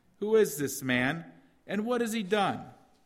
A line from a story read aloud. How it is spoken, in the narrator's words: Some of the crowd shouted one thing, others something else